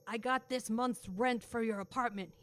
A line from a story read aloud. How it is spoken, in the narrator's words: said in a very rough voice